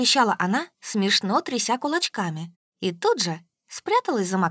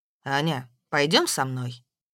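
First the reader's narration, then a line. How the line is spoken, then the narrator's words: Plain. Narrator (Russian): сказал Максим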